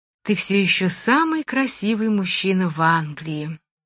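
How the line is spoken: Quiet, after hesitation. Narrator (Russian): тихонько проговорила она наконец

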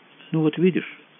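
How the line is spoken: Soft. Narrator (Russian): столь же мягко продолжал подполковник

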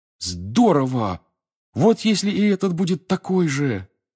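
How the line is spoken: Excited startled exclamation. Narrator (Russian): встрепенувшись, воскликнул Гарри

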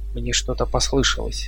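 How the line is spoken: Whisper. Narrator (Russian): прошептала она

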